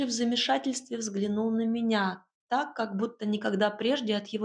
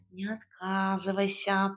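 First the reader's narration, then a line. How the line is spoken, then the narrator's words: Whining cat. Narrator (Russian): проскулил кот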